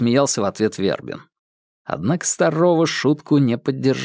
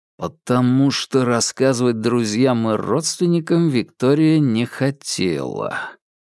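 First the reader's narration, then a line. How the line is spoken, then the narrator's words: Drawn out. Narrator (Russian): протянул Вербин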